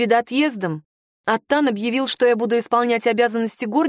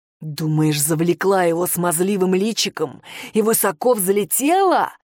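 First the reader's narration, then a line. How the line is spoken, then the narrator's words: Hissing up close. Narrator (Russian): прошипел он мне в лицо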